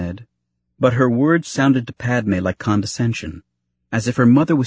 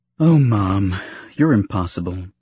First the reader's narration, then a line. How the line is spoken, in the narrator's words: she said with a sigh of surrender